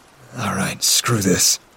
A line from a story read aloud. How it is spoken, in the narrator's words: I remember murmuring